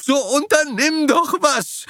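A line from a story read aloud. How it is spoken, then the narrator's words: Mother screaming loudly. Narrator (German): Mutter schrie laut auf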